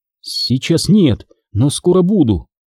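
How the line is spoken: Uncertain reply. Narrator (Russian): неуверенно ответила Маккензи

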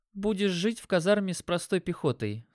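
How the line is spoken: Calm. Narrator (Russian): спокойно сказала Катя

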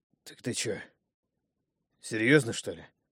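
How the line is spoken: Suddenly hoarse, asking again. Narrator (Russian): Вмиг осипшим голосом переспросил второй

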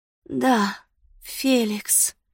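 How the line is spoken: Breathy. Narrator (Russian): выдохнула она

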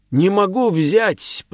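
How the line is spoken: Breathless wheeze. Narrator (Russian): просипел ярл, когда смог задышать

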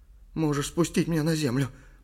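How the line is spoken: Whispered. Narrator (Russian): прошептал Ли

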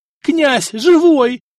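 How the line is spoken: Yelling. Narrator (Russian): завопил Сбыслав

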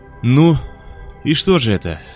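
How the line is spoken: Tired question. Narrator (Russian): устало спросил Мёрфи

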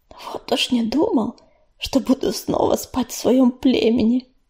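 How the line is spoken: Whispered. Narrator (Russian): прошептал Горелый

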